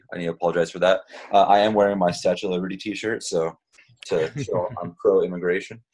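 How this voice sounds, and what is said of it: Nasal voice from a cold. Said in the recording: “I've got a little bit of a cold, so my voice sounds a little nasally.”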